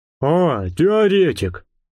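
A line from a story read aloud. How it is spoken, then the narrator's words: Grumbled greeting. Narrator (Russian): проворчал он вместо приветствия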